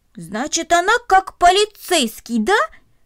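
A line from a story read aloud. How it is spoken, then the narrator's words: Joyful, pleased exclamation. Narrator (Russian): радостно воскликнул он, довольный своим открытием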